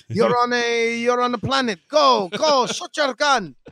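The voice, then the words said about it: Put-on French accent, drifting. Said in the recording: “I don't know what accent that was. I like that French. It went from French to something else.”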